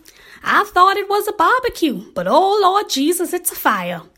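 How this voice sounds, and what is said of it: Sweet Brown impression. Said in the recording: “in my sweet brown voice.”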